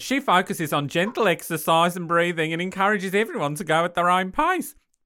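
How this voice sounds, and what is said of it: Put-on Australian accent. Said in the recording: “She's going Australian... No, she's going to stay Australian.”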